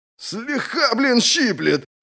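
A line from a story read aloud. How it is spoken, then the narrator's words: Roaring. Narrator (Russian): взревел Отда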